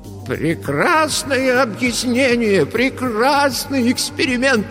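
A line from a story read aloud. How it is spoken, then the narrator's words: Exclaimed. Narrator (Russian): воскликнул он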